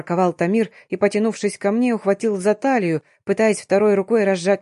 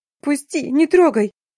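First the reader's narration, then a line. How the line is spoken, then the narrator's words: Shriek, then plaintive whimper. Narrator (Russian): Заверещала и жалобно прохныкала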